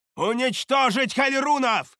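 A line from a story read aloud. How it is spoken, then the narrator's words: Shouted battle cry. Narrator (Russian): выкрикнула Шадея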